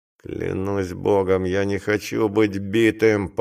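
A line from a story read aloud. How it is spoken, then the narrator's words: Grumbling. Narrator (Russian): поворчал Джелланд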